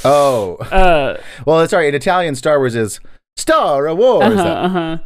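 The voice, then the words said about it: Put-on Italian accent. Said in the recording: “I'm doing an offensive Italian accent”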